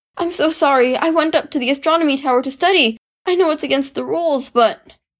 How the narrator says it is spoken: gasped

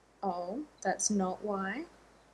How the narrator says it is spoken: Ronan said dryly

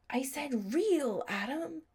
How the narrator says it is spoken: a little voice in his head that sounded disturbingly like Sherry's hissed

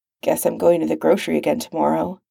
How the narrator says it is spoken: Sam muttered under his breath

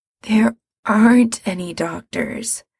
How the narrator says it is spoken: Mikey says wearily

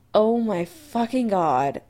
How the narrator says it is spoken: Adam groaned

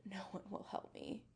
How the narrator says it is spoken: whispers

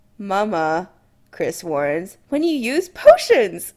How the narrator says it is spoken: Kim laughs

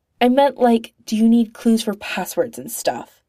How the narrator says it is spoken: Clint snaps, face hot

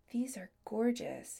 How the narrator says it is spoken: he murmured

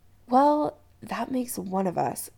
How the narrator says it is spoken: Chris muttered

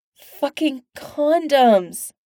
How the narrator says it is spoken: she whines

